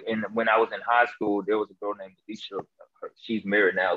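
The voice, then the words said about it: Deep voice, Memphis accent. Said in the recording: “this Memphis accent ... my voice because it was very deep”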